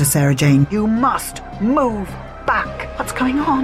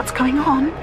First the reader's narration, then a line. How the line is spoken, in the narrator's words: She asked in a frightened voice